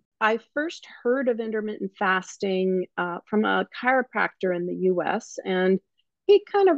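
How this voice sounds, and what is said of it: New Zealand-sounding accent. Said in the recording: “all the way from New Zealand there, but don't let ... accent fool you. She's an expat from the United States”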